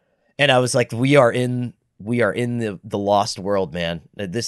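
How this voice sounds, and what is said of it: Usual voice. Nothing is said of it.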